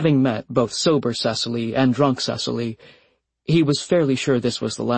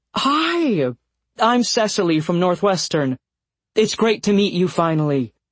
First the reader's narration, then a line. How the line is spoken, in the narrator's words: Cecily said, too brightly